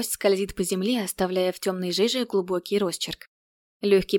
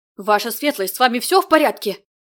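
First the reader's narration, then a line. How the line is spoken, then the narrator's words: Yelling in unison. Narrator (Russian): Завопили они в один голос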